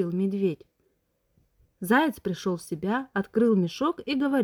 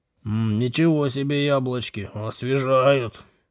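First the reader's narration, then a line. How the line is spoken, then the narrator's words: Roaring. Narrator (Russian): Проревел он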